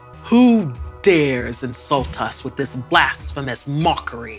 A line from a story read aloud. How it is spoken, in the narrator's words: His roar